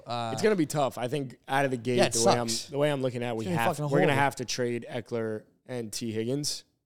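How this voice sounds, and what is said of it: Slightly hoarse, strained voice. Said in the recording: “losing my voice also a little bit ... lost my voice a little bit”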